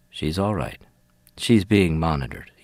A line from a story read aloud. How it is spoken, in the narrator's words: he says